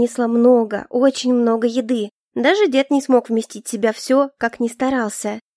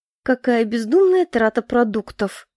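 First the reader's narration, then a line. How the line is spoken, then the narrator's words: Grandmother grumbling. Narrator (Russian): проворчала тем временем бабушка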